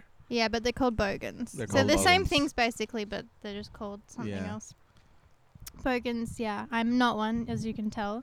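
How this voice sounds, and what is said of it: Mild Australian accent. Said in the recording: “I don't have a very strong Australian accent. I think it's just because Perth. Which is on the west coast where I'm from... we have like a little bit of a different accent than people on the east. They're more like stronger accents”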